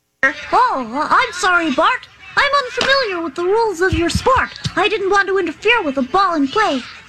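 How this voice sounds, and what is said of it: High-pitched little boy voice, Martin Prince. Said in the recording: “Such a high voice ... Little Martin Prince ... a little boy”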